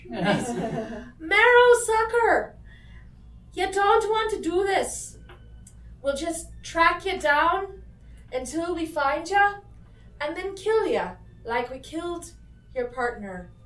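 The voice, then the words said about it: Shouting loudly. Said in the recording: “I'll raise my voice. ... Very loud. Loudly and clearly”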